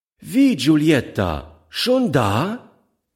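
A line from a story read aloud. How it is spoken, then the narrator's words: Call out. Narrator (German): rief sie dem Kind zu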